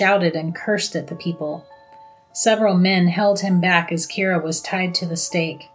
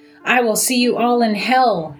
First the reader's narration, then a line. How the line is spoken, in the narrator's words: he shouted at them